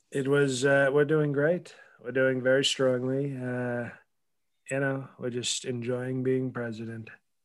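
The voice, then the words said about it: Donald Trump impression. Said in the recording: “doing his rock impression, Mr. Donald J. Trump”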